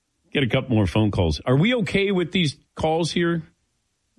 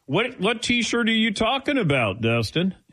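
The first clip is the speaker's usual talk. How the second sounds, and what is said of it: Put-on Southern accent. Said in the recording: “I don't know why I did a Southern accent there. I went Brian Kelly on him.”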